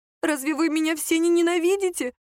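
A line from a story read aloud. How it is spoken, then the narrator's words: Sobbing. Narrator (Russian): всхлипнула Лера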